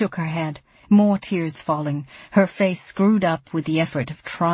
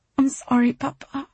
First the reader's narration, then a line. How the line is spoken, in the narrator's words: she said finally, her voice breaking